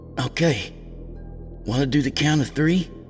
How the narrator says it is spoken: Kevin's voice was choked with fresh tears

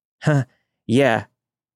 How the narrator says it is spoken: I said, my voice shaking

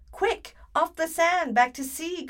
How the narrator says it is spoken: cried the snail

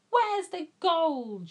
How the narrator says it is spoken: shouted Hang Chief

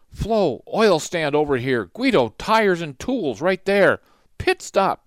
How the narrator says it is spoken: Guido shouted

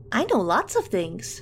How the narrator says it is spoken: Nancy chirped

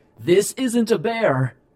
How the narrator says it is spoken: shouted as loud as I could

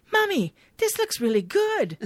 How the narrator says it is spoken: Giles, however, happily says

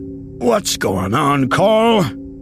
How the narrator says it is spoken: Jake asked, his voice gruff with sleep

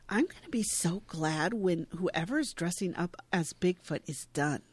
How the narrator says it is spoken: She says quietly to him

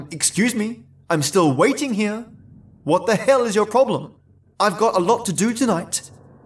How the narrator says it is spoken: furiously shouted

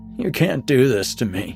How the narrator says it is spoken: I muttered

